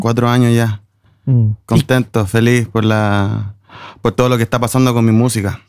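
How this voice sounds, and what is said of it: Chilean Spanish accent. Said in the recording (Spanish): “esto se oye con acento chileno.”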